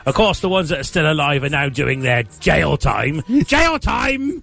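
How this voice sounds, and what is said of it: Imitates another person's voice. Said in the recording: “That's a very good impression, that.”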